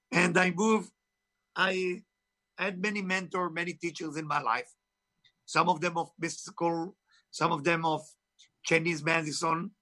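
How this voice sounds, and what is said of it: Israeli-accented English. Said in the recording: “Israel, of course. You can hear my accent is not from Tennessee, right?”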